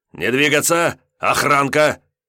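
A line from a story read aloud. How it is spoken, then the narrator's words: Loud bark. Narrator (Russian): Зубатов мог рявкнуть, и сильно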